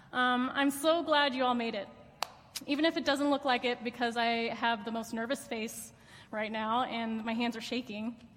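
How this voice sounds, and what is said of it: Worn, strained voice. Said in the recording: “I've been practicing all day long, so my voice is already a little bit scarred from it”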